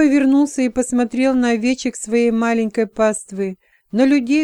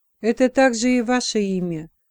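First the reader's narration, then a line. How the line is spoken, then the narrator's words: Very quiet reply. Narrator (Russian): очень тихо отозвался епископ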